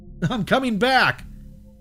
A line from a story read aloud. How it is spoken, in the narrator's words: yelled out in my voice